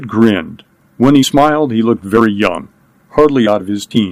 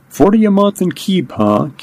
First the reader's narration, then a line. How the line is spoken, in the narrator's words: Kidd laughed